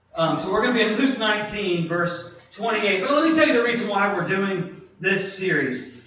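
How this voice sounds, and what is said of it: Northern US accent. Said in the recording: “as you can probably hear by my voice, I'm not from here. I'm not from around these parts. You know, I'm from up north”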